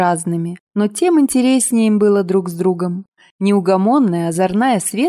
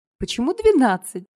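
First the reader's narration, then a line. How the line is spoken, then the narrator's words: Laughing question. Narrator (Russian): смеясь уточнила Настя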